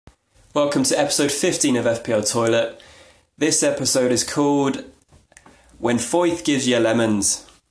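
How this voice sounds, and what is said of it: Poor put-on Irish accent. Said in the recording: “that shocking attempt at an Irish accent ... life in an Irish accent”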